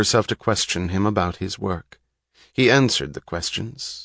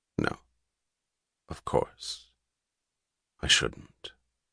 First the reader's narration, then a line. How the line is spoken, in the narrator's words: He answered quietly, gravely